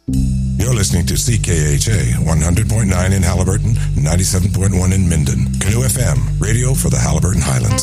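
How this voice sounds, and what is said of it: Polished radio announcer voice. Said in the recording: “that guy's got a good radio voice.”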